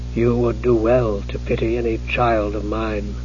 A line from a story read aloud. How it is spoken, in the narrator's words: the mage said softly